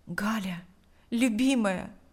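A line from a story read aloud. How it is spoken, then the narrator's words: Whispered, leaning close. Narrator (Russian): прошептал Павел, склонившись к ней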